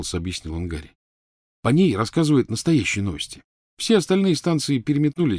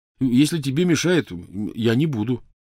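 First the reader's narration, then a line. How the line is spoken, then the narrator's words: Hurried reassurance. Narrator (Russian): торопливо заверил он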